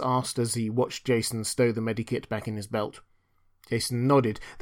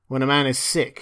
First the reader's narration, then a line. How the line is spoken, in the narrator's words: he growled